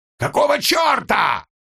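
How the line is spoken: Yelling. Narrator (Russian): завопил Жильбер

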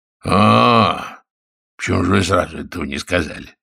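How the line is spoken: Hoarse wheeze. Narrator (Russian): захрипел Гюс

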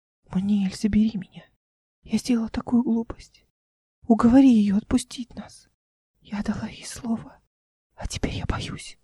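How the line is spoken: Whisper. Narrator (Russian): прошептала Мира, надеясь, что Эл нет рядом

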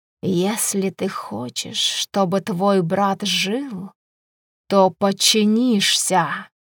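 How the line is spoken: Hissed. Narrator (Russian): прошипел

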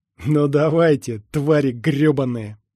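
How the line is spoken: Angry, through gritted teeth. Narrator (Russian): зло процедил он

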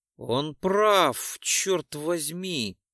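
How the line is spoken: Hoarse rasp. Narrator (Russian): прохрипел Декс

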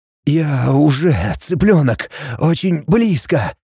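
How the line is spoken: Hoarse growl. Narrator (Russian): Хрипло прорычал Варрел

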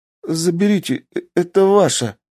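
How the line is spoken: Timid babbling. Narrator (Russian): пролепетал он

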